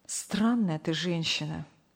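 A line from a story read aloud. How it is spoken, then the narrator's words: Sighing. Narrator (Russian): вздохнул Сергей Павлович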